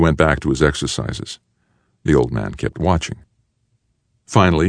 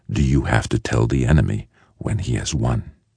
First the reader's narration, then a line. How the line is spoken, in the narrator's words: asked the man, his voice soft and rasping